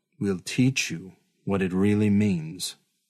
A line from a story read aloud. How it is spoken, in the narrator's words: she said